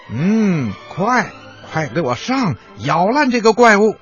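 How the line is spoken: Rat leader shouting. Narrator (Chinese): 那只耳朵上缺了一角的老鼠头目叫道

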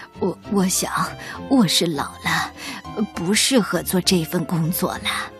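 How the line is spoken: Soft, old man. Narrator (Chinese): 水壶爷爷 轻声地说

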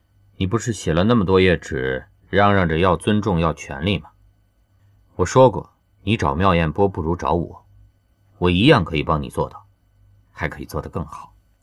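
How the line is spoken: Cool, smug tone. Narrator (Chinese): 羌然淡淡……一脸你才知道的表情说

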